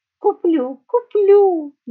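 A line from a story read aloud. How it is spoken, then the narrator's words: Sweet cooing. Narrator (Russian): лилейно проворковала та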